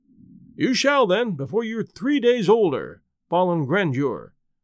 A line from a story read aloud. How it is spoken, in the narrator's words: says the duke